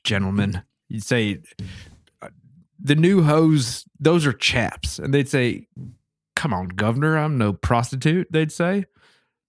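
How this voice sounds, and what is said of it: Mock British accent. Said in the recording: “I love the accent you've been working on ... I feel like I was just transported to the jolly old kingdom across the sea ... my British accent ... speech impediment”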